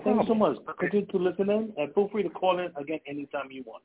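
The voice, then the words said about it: New York accent. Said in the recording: “I can tell by the accent you're from New York or either Boston ... No, we're from New York.”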